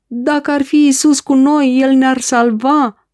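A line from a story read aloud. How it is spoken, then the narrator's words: Shouted. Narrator (Romanian): au strigat ei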